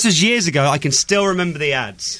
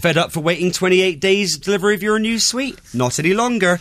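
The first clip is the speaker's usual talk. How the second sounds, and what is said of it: Bristolian accent, local advert voice. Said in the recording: “his amazing Bristolian accent? ... Very good indeed. ... it's just generally the Brian Steele voice I can do because I can mimic the ads.”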